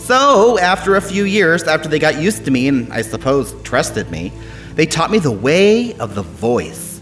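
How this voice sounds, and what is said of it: Funny-sounding fictional accent. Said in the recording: “Is that why you talk so funny? ... This is an anvil accent”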